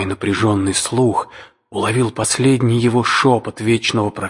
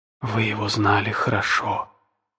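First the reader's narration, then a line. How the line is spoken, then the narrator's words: Whisper after pause. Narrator (Russian): прошептала она, помолчав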